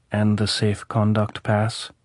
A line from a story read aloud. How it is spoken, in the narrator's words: Kharkov said softly